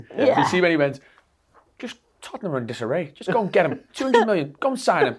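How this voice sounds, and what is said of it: Brilliant imitated accent. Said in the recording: “That was a brilliant accent, by the way.”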